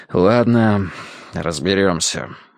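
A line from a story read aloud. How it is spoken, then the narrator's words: Sighing. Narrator (Russian): вздохнул мистер Данворти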